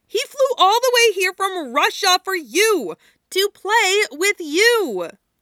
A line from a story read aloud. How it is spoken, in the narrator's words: Yuko shouted